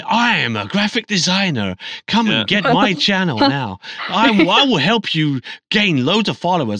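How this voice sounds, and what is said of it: Mock voice of spam graphic designers. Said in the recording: “That's a great impression. That's a great impression of all graphic designers.”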